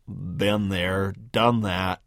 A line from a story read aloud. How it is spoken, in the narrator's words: mumble